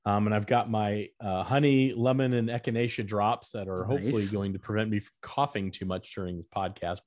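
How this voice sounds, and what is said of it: Deeper voice than usual. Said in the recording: “I think I still have a little deep voice that I don't normally have”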